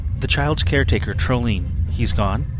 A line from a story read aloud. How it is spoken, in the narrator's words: he asked flatly